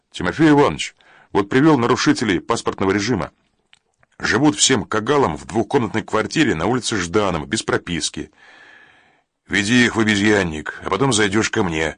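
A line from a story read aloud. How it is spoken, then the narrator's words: Commanding. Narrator (Russian): распорядился Тимофей Иванович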